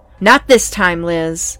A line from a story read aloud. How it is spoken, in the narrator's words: I shouted, perhaps a bit overly agitated